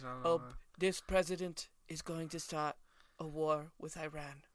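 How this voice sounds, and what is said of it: Imitates another person's voice. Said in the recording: “Is that your Trump voice? ... Yeah, I'm not good at it.”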